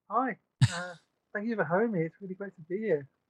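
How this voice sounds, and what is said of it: British accent from near London. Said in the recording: “coming to us all the way from London ... You can probably tell by the accent. ... I'm from the UK. I'm from near London.”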